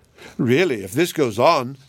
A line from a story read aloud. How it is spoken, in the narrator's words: she exclaimed